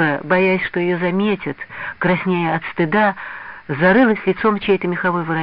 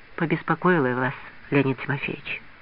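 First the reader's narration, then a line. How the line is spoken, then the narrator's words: Very quiet, apologetic. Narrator (Russian): И совсем тихо, словно извиняясь, она добавила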